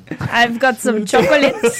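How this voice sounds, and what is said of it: Put-on Belgian accent. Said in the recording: “I've got some more accents for you then, Tony. Did you know I am from the Belgians?”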